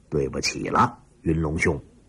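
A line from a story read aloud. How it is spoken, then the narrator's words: Cold inner thought. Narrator (Chinese): 楚云飞冷冷地，心里说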